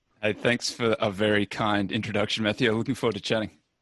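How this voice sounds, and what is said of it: Slight Australian accent. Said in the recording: “a hint of an accent ... I'm Australian originally”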